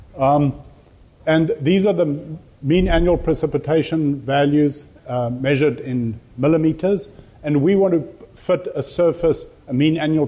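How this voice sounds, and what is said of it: South African accent. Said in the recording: “I worked with rainfall data in South Africa. ... I've got an accent. That's where my accent is from.”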